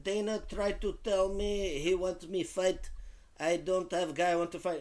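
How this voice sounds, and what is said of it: Imitates another person's voice, accent. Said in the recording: “I'm doing the Khabib accent ... my impressions”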